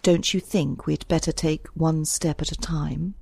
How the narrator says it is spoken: asked Marshall

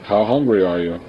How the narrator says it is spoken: He asked in a flat voice

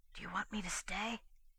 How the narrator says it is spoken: the devoted little barkeeper turned to the girl with a look full of meaning and whispered

